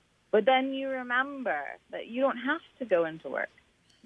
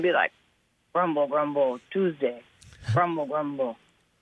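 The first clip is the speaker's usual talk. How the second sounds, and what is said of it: Grumbling impression of a friend. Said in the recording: “great Carl Brown impression, too. That was bang on.”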